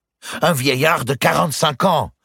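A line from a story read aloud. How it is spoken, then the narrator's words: Exclaiming. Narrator (French): s'écria Guccio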